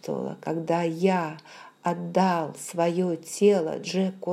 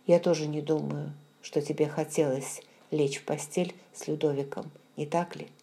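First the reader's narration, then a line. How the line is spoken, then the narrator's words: Calm. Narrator (Russian): Его голос звучал спокойно, когда он произнес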